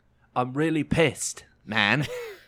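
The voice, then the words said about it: Put-on accent imitating another person. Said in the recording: “Can you do it in the accent?”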